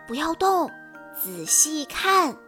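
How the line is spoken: Hushed. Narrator (Chinese): 弗洛压低了嗓门说

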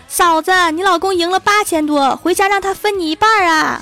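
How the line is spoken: Sudden frantic shouting. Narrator (Chinese): 小仙儿忽然对着郭大侠的手机疯狂地喊

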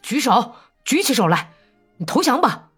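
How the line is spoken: Hoarse shout. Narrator (Chinese): 勾儿沙哑地喊道

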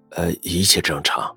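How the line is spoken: Quiet reply. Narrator (Chinese): 李川低声回复

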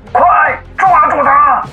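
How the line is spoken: Commanding. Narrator (Chinese): 沈聪命令道

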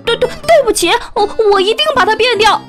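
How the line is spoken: Frantic cry. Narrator (Chinese): 老太太也疯了似的叫起来

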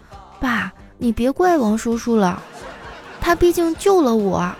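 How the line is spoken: Soft, persuading. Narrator (Chinese): 儿子小声的劝说道

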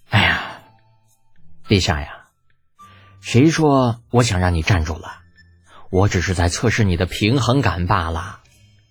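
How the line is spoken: Leisurely sigh. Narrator (Chinese): 李浩悠悠的叹了口气

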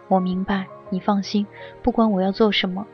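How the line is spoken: Soft voice, faint smile. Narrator (Chinese): 尚修文脸上浮起隐约的笑意，轻声地说

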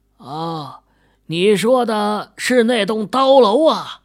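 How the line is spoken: Loud, close to ear. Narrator (Chinese): 秦宇朝大爷的耳朵凑近了点大声说道

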